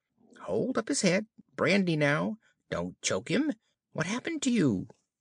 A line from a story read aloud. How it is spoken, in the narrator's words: a little, feeble, squeaking voice